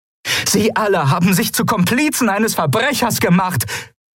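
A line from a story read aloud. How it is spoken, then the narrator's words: Calling out. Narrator (German): rief Kalin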